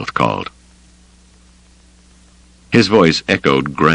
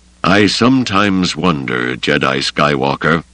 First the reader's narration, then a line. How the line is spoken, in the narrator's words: the old man said gravely